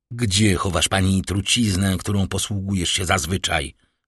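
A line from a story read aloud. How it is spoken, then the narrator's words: Drawled out, blunt. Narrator (Polish): wycedził, nie czyniąc żadnych wstępów, Villefort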